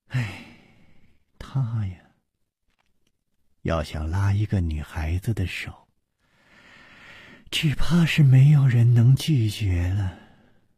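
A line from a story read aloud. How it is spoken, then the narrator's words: Sighing. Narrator (Chinese): 苏蓉蓉叹道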